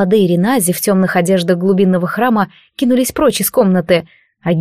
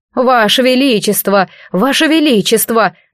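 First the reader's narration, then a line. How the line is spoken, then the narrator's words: Straining desperate shouting. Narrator (Russian): надрывался Тиаран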